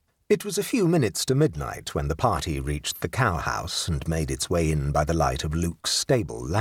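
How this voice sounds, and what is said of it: Usual voice. Nothing is said of it.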